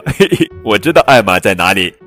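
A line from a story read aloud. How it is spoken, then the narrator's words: Giggling. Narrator (Chinese): 另一只象咯咯笑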